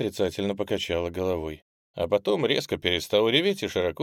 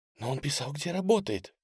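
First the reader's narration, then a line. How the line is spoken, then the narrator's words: Whisper. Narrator (Russian): прошептала она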